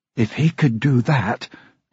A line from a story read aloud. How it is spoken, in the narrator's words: Emma muttered